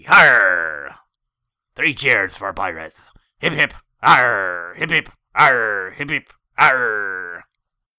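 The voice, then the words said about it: Exaggerated pirate voice. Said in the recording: “brought to you by pirates in celebration of International Talk Like a Pirate Day”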